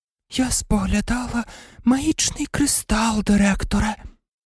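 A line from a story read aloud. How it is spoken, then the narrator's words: Mystical otherworldly voice. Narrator (Ukrainian): мовила професорка Трелоні своїм містичним потойбічним голосом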